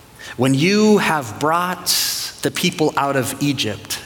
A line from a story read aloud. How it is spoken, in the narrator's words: God said